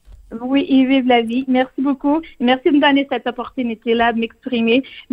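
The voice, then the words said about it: Charming foreign accent in French. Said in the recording (French): “Même avec mon accent ... vous parlez euh, français avec un accent qui est absolument euh, charmant”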